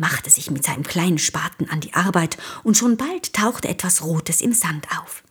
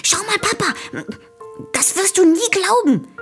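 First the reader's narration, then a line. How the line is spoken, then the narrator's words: Excited. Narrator (German): sagte er, während er aufgeregt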